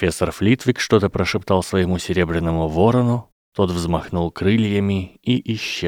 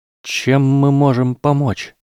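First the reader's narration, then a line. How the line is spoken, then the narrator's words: Trembling question. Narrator (Russian): спросил Дин дрожащим голосом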